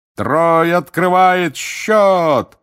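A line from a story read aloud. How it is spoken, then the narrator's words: Roared. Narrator (Russian): взревел Бэгман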